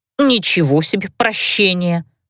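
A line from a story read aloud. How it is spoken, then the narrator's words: Snorting. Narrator (Russian): фыркнула я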